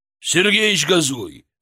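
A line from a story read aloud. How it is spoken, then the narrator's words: Barked. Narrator (Russian): рявкнул Григорий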